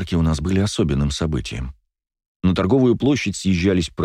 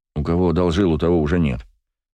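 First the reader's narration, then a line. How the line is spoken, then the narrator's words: Resentful grumble. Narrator (Russian): проворчал я, все еще обижаясь на друга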